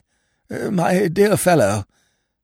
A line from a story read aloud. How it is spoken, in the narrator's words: quavered Lord Emsworth